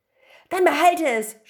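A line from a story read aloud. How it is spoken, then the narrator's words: Young man shouting. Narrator (German): schrie der junge Mann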